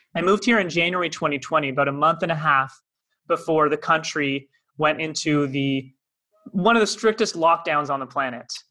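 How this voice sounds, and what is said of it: Canadian accent. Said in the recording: “by my accent, not from here, originally from Toronto, Canada”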